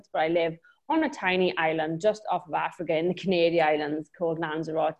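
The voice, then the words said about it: Welsh accent. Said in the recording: “I'm originally from Wales, hence the accent”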